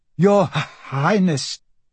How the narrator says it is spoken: Michael stammered

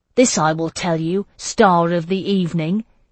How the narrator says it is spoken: he said in a cold voice, the distant tone of the Dromond

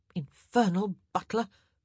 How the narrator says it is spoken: Kate muttered

